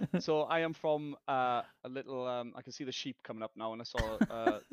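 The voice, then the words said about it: South Welsh accent, fast speech. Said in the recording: “what your accent is... it's a different accent for them... I'm from Wales, South Wales... I'm probably talking really, really fast”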